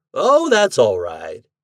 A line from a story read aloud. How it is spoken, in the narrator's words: he went on cheerfully